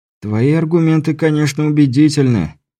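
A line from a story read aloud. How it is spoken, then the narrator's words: Tired sigh. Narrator (Russian): Беляев устало вздохнул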